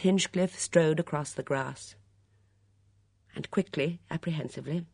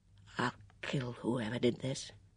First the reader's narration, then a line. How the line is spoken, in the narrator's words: said Miss Hinchcliffe in a low, quiet voice